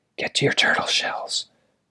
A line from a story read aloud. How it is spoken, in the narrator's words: whispered loudly